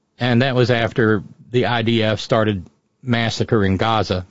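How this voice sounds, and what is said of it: Usual voice. Nothing is said of it.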